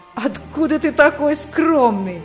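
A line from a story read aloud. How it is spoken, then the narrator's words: Mocking laughter. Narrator (Russian): смеялись они над ним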